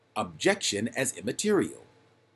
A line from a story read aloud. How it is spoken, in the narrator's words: called out